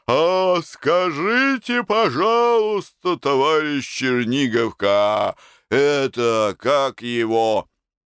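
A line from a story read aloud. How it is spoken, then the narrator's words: Hoarse wheeze. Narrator (Russian): захрипел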